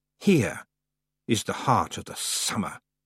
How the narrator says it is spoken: hissed the voice of the summer lady

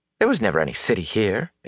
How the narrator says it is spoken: Egwene scoffed

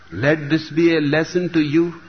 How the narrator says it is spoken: said Mullah Nasruddin

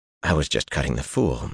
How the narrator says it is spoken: Matt muttered

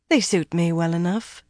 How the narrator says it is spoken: Fayil replied coolly

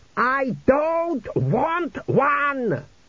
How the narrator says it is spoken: screamed the king

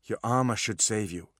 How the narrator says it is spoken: he said to Opal, his voice calm

